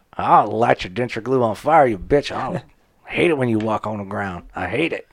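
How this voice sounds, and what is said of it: Put-on redneck accent. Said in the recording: “Who invited this redneck? ... I've been doing a redneck accent ... I'm just doing dumbass accent.”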